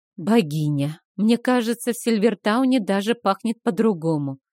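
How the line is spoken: Sighing. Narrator (Russian): вздохнула я

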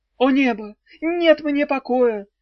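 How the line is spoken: Tragic exclamation. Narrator (Russian): воскликнул он трагическим голосом

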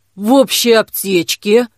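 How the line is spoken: Mumbling. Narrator (Russian): пробормотала та

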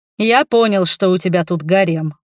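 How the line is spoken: Snort without mockery. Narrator (Russian): хмыкнул он, но неужели без издевки

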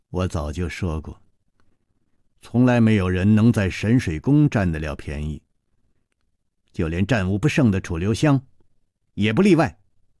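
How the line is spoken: Cold. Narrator (Chinese): 宫南燕冷冷地说

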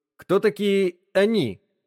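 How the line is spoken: Plain question. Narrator (Russian): спросил бармен

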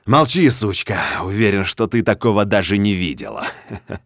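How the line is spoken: Grim mocking laughter. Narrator (Russian): Мрачно смеюсь ей в лицо, издеваясь и дразня

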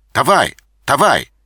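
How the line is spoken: Shout. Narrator (Russian): закричал он

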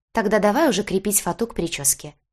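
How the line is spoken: Businesslike tone. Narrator (Russian): деловым тоном заявила мама

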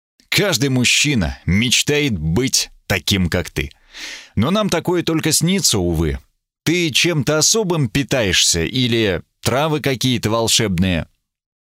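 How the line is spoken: Fierce growl, smug note. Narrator (Russian): Великан прорычал все еще люто, нотку самодовольства

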